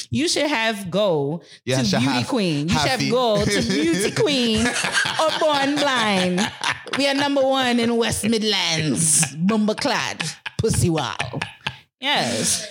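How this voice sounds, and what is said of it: Put-on Caribbean accent. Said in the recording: “I wish you would have done that in a Caribbean accent.”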